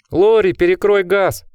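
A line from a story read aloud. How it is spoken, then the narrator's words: Shout. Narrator (Russian): крикнул один из посетителей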